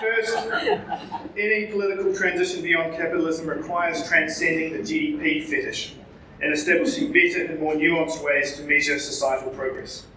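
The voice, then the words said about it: New Zealand accent. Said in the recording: “with my Kiwi accent”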